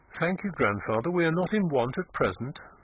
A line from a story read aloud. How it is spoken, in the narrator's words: she said coldly